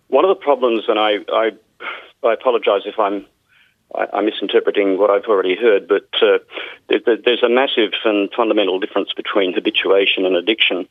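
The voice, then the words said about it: Australian accent. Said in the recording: “I'm Australian, as you can probably tell from my accent.”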